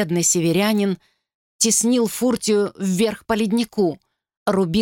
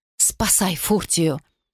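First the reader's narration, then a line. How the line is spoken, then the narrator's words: Hoarse wheeze. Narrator (Russian): просипела она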